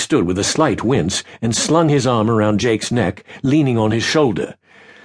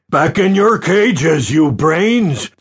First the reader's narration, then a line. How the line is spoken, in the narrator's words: the giant boomed